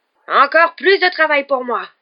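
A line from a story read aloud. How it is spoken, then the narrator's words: Yelled. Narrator (French): entendirent-ils hurler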